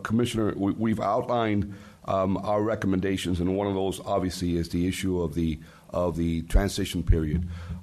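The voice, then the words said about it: Hoarse, fading voice. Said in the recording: “apologize for my voice. I'm losing a little bit of it.”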